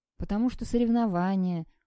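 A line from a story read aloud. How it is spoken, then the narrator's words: Tired. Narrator (Russian): устало сказал Сашка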